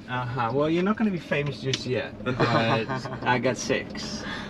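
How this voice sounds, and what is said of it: Dutch-accented English. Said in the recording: “your accent ... it's obviously something European ... It sounds Germanic to me ... Are you Dutch? ... It sounds Germanic, but not German.”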